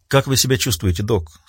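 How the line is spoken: Quiet, sympathetic question. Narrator (Russian): спросила Риццоли тихим голосом, исполненным участия

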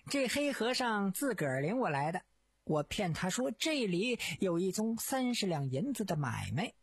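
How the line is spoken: Laughing. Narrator (Chinese): 陶干笑道

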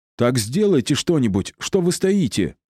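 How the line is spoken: Yelling. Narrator (Russian): заорал Кирилл

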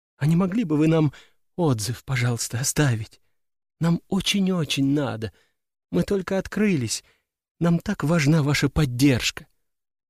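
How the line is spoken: Trembling whisper. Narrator (Russian): прошептала она дрожащим голосом

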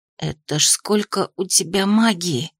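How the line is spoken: Whispered exclamation. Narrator (Russian): Перестав паниковать, шепотом воскликнула Ри

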